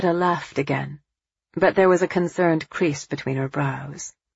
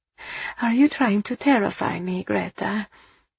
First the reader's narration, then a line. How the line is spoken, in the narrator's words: Eva asked softly